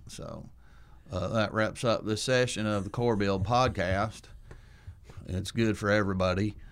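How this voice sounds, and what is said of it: Put-on Southern accent. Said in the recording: “Okay, I'll do this with an accent. My wife loves my southern accent”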